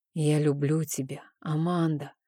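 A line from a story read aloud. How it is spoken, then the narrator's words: Whispered into ear. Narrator (Russian): прошептал я ей на ушко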